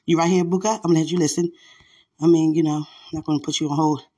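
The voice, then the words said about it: Out of breath, breathy speech. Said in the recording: “I'm out of breath a little bit”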